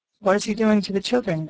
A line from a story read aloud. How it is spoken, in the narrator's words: asked Nat